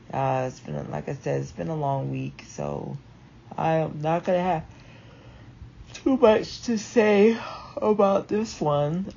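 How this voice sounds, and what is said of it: Tired-sounding voice. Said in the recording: “I'm tired, so you probably can hear it in my voice.”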